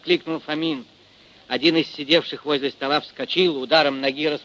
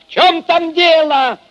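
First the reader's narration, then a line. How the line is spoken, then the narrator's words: Shouting into darkness. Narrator (Russian): крикнул он в темноту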